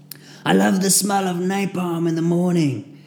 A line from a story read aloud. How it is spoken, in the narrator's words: he shouted in a thick Russian accent, he had already lost his mind